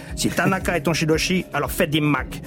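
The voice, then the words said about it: Put-on Asian accent. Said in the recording (French): “je fais un accent asiatique parce que c'est doublé comme ça”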